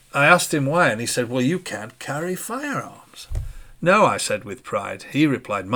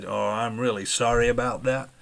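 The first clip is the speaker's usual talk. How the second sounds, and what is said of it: Put-on American accent. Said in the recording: “Excuse my American accent.”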